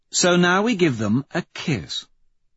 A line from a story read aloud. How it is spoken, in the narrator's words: Victor says, with a little purr for Holiday